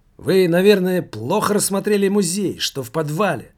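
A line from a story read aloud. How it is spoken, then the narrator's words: Old man exclaiming. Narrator (Russian): воскликнул пенсионер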